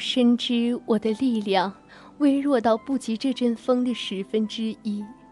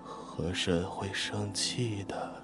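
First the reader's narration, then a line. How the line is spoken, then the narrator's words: Tearful quiet mumbling. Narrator (Chinese): 他 哭泣 小声嘟囔着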